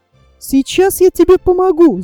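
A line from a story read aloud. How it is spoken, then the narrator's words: Shout. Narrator (Russian): закричала Гуля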